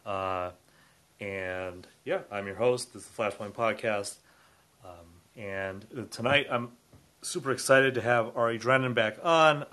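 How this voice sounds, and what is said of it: Congested, stuffy voice. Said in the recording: “I have a bit of a cold, so my voice is a little more congested than usual.”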